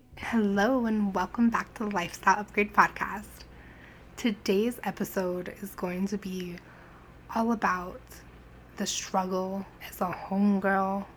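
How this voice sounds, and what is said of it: Hoarse, raspy, sick-sounding voice. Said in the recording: “I am recovering from strep, so I sound sick throughout this entire episode... it's not completely gone, but it's just, you know, a little raspy, a little manlier than usual”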